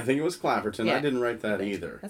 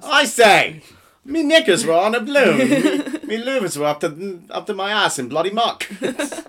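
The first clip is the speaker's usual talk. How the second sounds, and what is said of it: Put-on Cockney accent. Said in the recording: “Do I have a Cockney accent? ... That's pretty damn good.”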